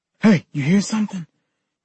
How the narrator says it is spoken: Kenny whispered

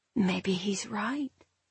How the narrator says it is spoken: the nasty little voice in my head whispered

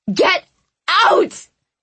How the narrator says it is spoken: I yelled

